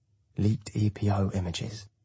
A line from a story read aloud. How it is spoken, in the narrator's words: Helena whispers from behind, sensing my interest